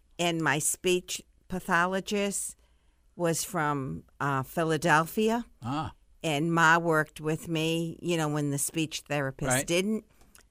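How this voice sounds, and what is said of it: Blended Northeastern US accent. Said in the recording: “What kind of accent is that? It's a Northeast accent, right? ... It's a blend ... It's a good-sounding accent.”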